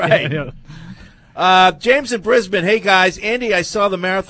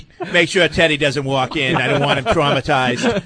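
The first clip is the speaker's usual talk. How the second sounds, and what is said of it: Kennedy accent, drunken slurred voice. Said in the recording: “Actually sounds more like Ted ... the Kennedy accent has morphed into the drunk Ted”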